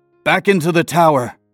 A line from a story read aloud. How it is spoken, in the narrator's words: he shouted, above the din of fighting